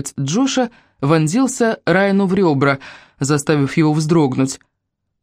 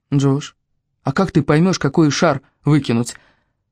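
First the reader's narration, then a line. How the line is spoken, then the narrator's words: Barely audible question. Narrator (Russian): еле слышно спросил Райан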